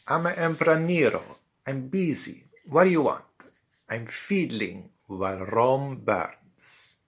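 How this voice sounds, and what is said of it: Improvised Eastern European accent. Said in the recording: “in her rather mobile Eastern European improvised accent”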